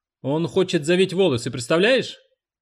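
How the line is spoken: Loud explanation. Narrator (Russian): Харриет громко пояснила

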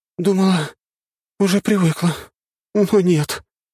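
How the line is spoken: Moaning. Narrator (Russian): простонала Лиза

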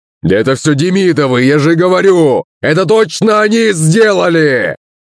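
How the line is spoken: Shouting father. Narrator (Russian): кричал батя

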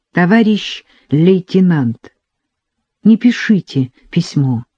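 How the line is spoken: Suddenly trembling voice. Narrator (Russian): Внезапно дрогнувшим голосом он сказал

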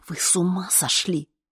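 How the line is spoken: Furious whisper. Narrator (Russian): яростно зашептал он

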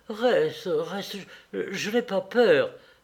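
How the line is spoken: Jerky voice. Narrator (French): dit-elle d'une voix saccadée

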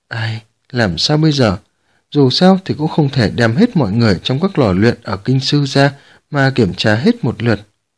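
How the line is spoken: Worried sighing mutter. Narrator (Vietnamese): Dương Lưu Chỉ thở dài, lẩm bẩm

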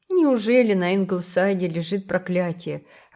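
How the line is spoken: Gloomy question. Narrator (Russian): мрачно спросил он

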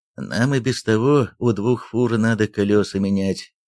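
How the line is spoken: Sighing. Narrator (Russian): вздохнул Михаил

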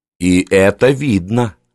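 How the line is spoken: Plain. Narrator (Russian): ответил Эйлер

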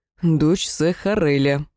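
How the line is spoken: Moaning. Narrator (Russian): простонал Тарунг

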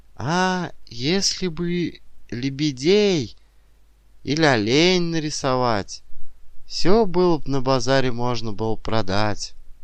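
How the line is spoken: Timid, sighing advice. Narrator (Russian): Соседка хвалила, вздыхала и робко советовала

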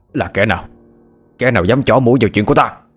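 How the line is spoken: Startled shout. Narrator (Vietnamese): Lão Phúc cả kinh, miệng quát lên

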